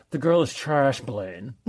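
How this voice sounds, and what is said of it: Clenched lockjaw voice impression. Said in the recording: “in my best James Spader voice ... He's got the great lockjaw.”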